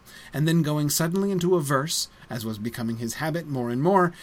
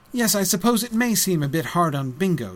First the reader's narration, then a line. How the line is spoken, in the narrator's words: said Bilbo